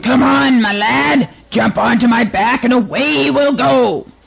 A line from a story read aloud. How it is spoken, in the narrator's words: Billy's bull called out